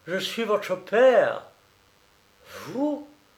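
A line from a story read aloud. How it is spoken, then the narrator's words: Woman exclaiming. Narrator (French): s'exclamait la bohémienne blonde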